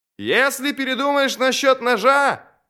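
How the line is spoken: Shouted with broad smile. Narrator (Russian): крикнул Горм ему вслед, широко улыбаясь

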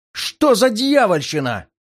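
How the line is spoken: Yelled in unison. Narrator (Russian): В один голос завопили

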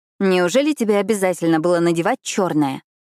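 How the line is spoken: Grumbling. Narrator (Russian): проворчала я

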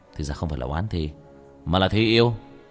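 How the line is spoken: Muttering. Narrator (Vietnamese): lẩm bẩm

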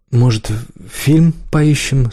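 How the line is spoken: Timid question. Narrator (Russian): спросил робко

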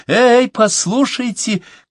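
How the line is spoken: Shout. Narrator (Russian): крикнула она

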